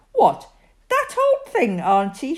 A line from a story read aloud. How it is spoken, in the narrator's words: she cried